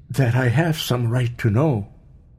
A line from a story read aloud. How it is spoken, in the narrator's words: he faltered oddly